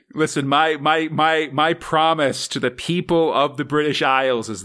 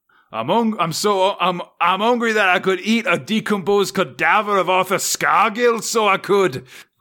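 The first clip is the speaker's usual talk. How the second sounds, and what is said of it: Put-on Scottish accent. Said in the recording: “That's just Scottish.”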